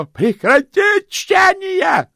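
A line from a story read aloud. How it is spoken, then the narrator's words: Yelling. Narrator (Russian): заорал Сдушкомс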